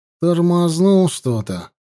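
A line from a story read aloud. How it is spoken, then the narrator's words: Sighing. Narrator (Russian): вздохнул Петька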